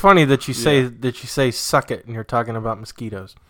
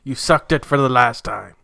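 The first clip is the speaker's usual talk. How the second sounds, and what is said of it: Theatrical villain voice. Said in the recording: “That's my villain voice.”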